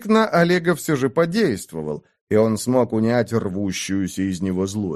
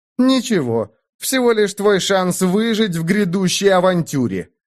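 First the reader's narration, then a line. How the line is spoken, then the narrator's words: Snapped, calming down. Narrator (Russian): огрызнулся Айрунг, тоже успокаиваясь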